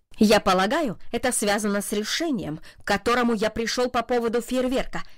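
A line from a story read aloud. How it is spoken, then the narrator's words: Sharp. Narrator (Russian): резко сказал он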